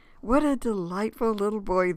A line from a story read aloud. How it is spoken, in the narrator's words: the babysitter exclaimed